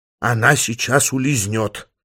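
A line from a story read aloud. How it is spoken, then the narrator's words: Whisper. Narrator (Russian): прошептал Ля Понте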